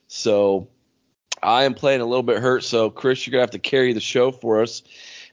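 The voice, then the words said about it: Hoarse, weak, congested voice. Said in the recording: “I apologize for my voice... I still don't have much of a voice because I literally screamed my head off Saturday, and then I think I got a sinus infection on top of that”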